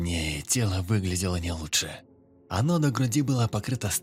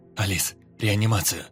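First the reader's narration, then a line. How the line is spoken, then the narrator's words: Shouted. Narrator (Russian): Крикнул он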